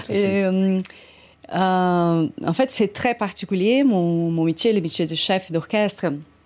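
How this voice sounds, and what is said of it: Brazilian accent. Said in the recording (French): “un accent ... brésilien”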